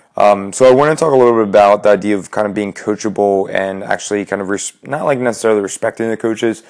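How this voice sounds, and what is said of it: Slightly raspy voice. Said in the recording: “Sorry for a little bit of a raspy voice”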